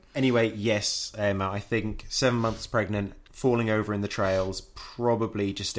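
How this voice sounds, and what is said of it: Usual voice. Nothing is said of it.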